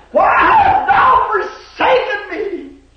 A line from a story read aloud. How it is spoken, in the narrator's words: he cried